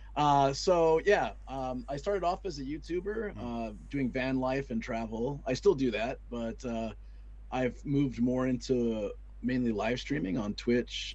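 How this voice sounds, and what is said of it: Slightly worn-out, strained voice. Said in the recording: “my voice is a little bit out... This is pretty common when you do like 10 to 15 hour streams in a day and talk constantly”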